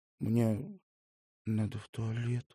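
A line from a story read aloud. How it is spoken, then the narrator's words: Barely audible reply. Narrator (Russian): еле слышно ответил он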